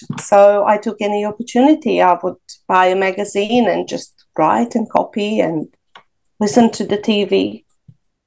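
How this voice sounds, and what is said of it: Non-native English accent. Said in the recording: “not that my English is perfect by now, there's an accent”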